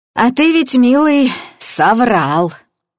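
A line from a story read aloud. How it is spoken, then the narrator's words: Creaky voice from behind. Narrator (Russian): проскрипела за спиной Илюшина Нина Ивановна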